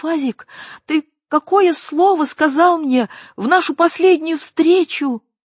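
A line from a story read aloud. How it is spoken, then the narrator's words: High trembling nervous voice. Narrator (Russian): Разом вспотевшая, Лилька спросила высоким, дрожащим голосом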